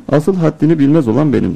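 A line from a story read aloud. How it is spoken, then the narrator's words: Plain. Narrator (Turkish): dedi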